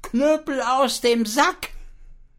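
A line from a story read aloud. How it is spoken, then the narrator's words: Calling out. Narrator (German): unser armes Schwein ... rief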